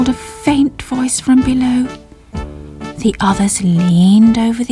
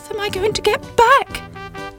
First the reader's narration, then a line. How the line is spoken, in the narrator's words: cried Sybil